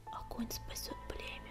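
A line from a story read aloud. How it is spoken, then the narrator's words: Whispered. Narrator (Russian): прошептала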